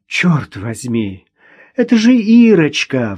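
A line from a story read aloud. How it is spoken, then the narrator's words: Relieved sigh. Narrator (Russian): вздохнула она с облегчением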